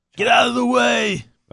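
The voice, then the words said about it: Impression of an action-movie hero's shout. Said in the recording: “His Rambo impersonation.”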